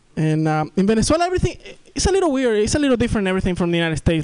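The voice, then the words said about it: Thick South American accent. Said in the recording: “I'm from South America, that's why I have this thick accent.”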